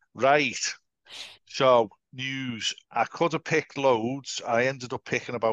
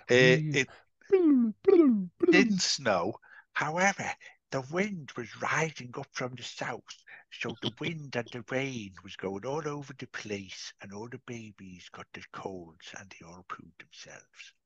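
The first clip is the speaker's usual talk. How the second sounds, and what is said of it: Impression of Wincy Willis. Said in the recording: “my Wincy Willis impression”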